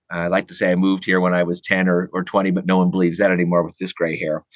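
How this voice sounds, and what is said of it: American accent. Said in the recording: “distinctly retained American accent”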